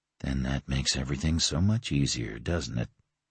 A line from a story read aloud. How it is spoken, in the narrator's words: He murmured